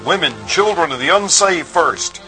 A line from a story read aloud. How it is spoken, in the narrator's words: Harper cried out